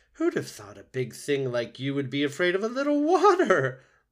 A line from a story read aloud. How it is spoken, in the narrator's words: Loudwing laughed